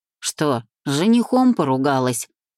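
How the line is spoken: Curious snorting question. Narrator (Russian): Хмыкнув с любопытством, поинтересовался таксист и предположил

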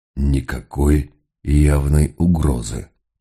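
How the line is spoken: Whisper. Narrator (Russian): прошептал он

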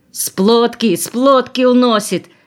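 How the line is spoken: Shouting. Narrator (Russian): кричал он

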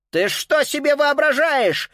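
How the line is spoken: Angry shout. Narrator (Russian): сердито крикнул в ответ Карл

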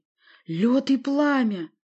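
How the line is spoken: Exclaimed. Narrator (Russian): воскликнул я

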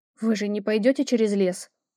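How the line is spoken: Frightened question. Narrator (Russian): испуганно уточнила я

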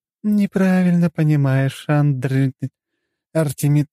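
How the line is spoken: Sighed. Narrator (Russian): Лакримоза вздохнула

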